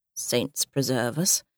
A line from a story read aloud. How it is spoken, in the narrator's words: grumbled Robert